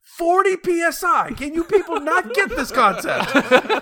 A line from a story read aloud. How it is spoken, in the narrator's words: scream out